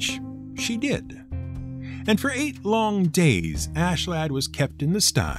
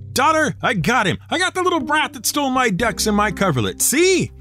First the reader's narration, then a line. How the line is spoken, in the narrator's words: the troll called out